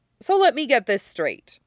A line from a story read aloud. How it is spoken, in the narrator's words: Styles says